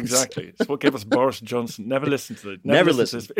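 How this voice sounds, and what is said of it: Posh Oxbridge English accent. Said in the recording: “a great Oxbridge accent”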